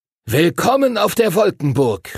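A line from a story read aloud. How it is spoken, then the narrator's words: Call. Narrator (German): rief Master Duncan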